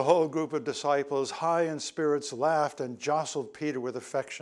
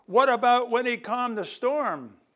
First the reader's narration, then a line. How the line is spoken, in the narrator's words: Matthew shouted